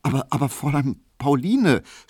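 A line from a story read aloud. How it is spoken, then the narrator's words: Guilty stammer. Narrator (German): stotterte Emil Kubinke, und er hatte ein sehr böses Gewissen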